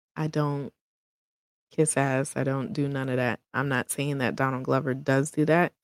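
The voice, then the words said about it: New York accent. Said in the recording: “I am a New Yorker, so you would probably hear that in the accent.”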